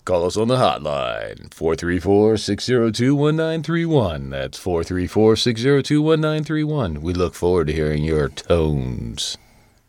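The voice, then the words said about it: Smooth, velvety radio announcer voice. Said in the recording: “You want a radio voice on that one? ... those velvety tones”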